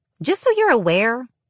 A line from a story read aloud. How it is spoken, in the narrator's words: Moore chirped from the other side